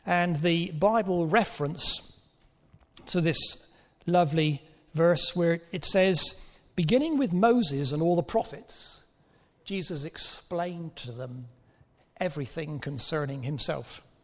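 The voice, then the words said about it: Cornish English accent. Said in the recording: “my accent is not a refined Surrey accent. I'm actually a refugee from Cornwall.”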